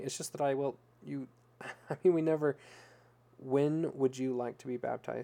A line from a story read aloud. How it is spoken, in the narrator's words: Sam asked, interrupting Connie stammering